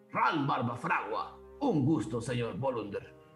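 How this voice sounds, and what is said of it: Storyteller voicing a character. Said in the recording (Spanish): “imitación de, de Ral”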